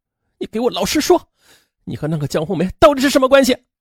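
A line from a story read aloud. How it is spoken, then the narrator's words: Angry demand. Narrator (Chinese): 张维尼愤怒的质问丈夫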